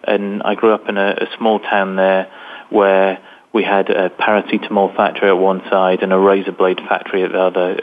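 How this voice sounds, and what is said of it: Northern English accent. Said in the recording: “as you can tell from my accent, I'm from England, from a place in the north of England”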